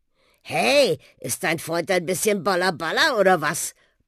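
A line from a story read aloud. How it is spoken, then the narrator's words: Grumbling. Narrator (German): brummte der Buschi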